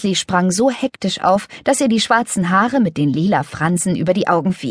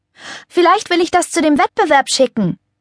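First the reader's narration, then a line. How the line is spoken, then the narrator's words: Calling after someone. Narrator (German): rief Lenny ihrer Schwester hinterher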